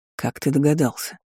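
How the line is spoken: Quiet question. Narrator (Russian): тихо спросил Даррен

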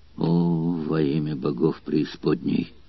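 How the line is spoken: Shocked furious growl. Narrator (Russian): зарычал Спартак, услышав злополучную весть о гнусной измене

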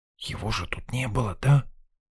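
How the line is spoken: Doubtful whisper. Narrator (Russian): Отчего-то снова шепотом уточнила Лена, словно сомневаясь в собственном зрении

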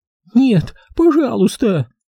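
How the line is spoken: Pleading. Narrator (Russian): взмолилась Фабриэла

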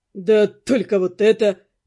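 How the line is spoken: Suddenly changed voice. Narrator (Russian): Произнес посыльный, уже совсем другим голосом

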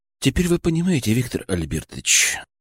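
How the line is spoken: Speaking quietly. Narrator (Russian): заговорил тихо

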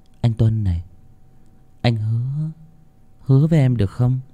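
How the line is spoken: Soft murmuring. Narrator (Vietnamese): Phương vẫn cứ thủ thỉ

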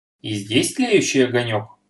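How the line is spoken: Surprised exclamation. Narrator (Russian): удивленно воскликнул Берсенев

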